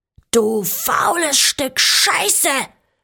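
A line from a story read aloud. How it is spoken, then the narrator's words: Mother roaring. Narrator (German): brüllte meine Mutter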